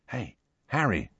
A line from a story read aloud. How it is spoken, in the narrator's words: said Ron softly